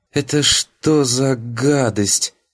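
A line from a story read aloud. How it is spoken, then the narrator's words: Strained. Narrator (Russian): Только и выдавила из себя воспитательница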